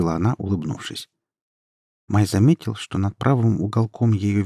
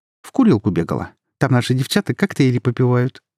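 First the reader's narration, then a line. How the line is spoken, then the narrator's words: Quick reply. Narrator (Russian): быстро ответила она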